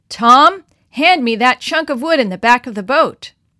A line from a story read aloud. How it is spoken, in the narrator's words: his father called out